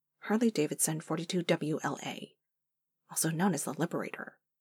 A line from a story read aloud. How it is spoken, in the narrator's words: Phil muttered